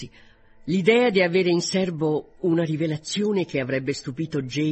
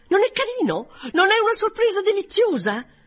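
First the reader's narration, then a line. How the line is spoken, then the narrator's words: Triumphant exclamation. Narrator (Italian): con aria di trionfo, esclamando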